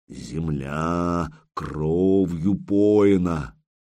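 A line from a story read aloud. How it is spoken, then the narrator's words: Creaky dead man's voice. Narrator (Russian): голосом Рериха усопшего проскрипел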